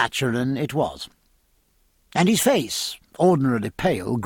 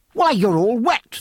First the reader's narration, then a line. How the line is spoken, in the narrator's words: they both cried